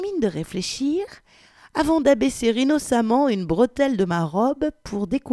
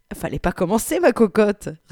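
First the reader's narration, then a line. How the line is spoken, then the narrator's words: Sneering laugh. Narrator (French): ricana-t-il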